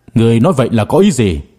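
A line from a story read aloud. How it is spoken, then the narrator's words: Angry question. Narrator (Vietnamese): Gia Cát Thanh Vân tức giận mà hỏi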